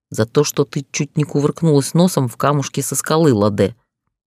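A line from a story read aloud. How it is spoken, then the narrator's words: Growl. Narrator (Russian): прорычал он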